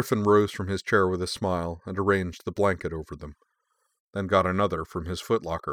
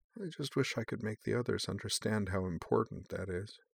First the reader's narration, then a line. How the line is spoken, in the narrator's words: Unable to resist any longer, she lay down, snuggling with Wolfgang, and murmured